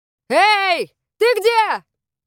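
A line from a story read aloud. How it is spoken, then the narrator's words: Shouting into darkness. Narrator (Russian): крикнул Ларс в темноту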